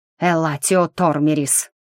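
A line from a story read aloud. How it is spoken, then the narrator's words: Breathed out. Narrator (Russian): выдохнул рассветный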